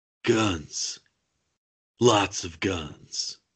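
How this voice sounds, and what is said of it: Deep put-on movie voice. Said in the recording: “I like that deep voice”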